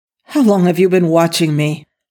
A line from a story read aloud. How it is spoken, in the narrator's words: Daniel asked angrily